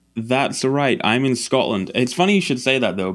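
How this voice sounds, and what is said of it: Mild Scottish accent. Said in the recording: “a little bit of an accent, but not too bad of an accent. That's a Scottish accent, right?”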